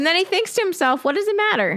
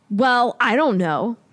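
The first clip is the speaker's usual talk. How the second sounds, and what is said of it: Angry voice. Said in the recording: “in an angry voice”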